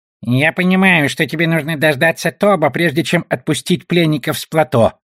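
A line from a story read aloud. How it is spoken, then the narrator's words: Creaky goblin voice. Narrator (Russian): проскрипел гоблин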